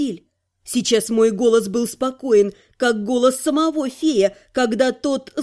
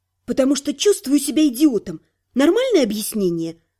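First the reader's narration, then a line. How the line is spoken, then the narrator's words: Snapped. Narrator (Russian): Огрызнулась я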